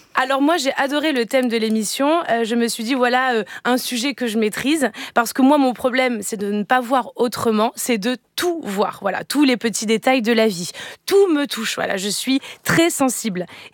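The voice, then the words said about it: Put-on Marseille accent. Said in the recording (French): “j'essayais de vous imiter, Eva. ... Avec l'accent de Marseille ... je ne ferais pas des accents bancals”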